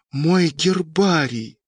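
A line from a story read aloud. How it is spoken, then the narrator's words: Hissing. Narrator (Russian): прошипел Сашка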